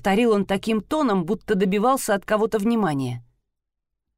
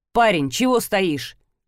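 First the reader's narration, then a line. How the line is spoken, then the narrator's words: Sharp shout. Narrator (Russian): прикрикнул мужчина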